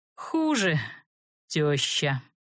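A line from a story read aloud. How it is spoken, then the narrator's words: Gloomy grumble. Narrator (Russian): мрачно буркнул эльф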